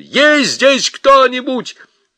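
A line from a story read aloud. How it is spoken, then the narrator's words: Shouted. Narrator (Russian): закричал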